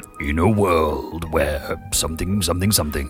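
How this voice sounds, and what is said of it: Deep movie-trailer narrator voice. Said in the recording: “that deep voice chap doing this ... Oh, it's quite sexy”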